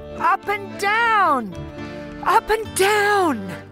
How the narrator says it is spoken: Stelzer still shouting

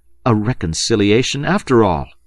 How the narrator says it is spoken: they exclaimed together

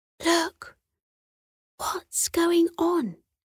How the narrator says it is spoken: Atticus whispered

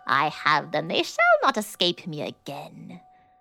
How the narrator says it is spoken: she had cackled with malice to herself and said mockingly

